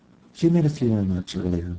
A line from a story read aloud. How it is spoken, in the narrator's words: Manning said calmly